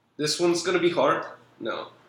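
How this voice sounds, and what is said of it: Put-on Irish accent. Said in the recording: “how many accents can you do? ... Irish. ... Okay, that was good.”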